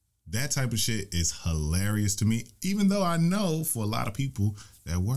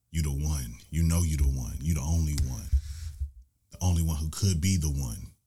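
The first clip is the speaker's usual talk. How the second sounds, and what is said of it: Low seductive bedroom voice. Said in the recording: “I put my bedroom voice on”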